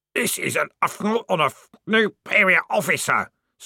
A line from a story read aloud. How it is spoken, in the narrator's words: screamed the corporal in a muffled voice